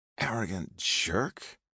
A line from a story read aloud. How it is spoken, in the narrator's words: muttered